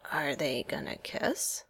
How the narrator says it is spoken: Sam asked Steve in a whisper

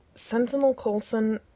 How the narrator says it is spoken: Steve said through gritted teeth

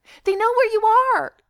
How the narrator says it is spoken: Keely says desperately

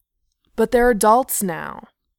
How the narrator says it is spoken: Beaufort objected loudly

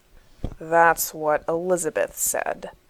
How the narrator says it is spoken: John answers darkly

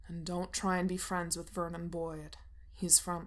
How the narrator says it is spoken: he says sternly, like he's in charge of her or something

